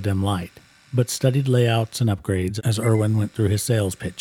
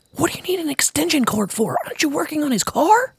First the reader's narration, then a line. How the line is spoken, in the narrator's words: Kobe replied in a loud whisper